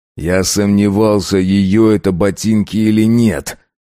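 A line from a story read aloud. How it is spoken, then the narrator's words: Growled. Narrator (Russian): прорычал он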